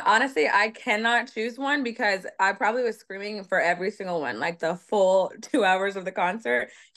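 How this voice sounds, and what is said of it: Hoarse, slightly lost voice. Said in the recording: “You can kind of tell my voice is a little bit gone”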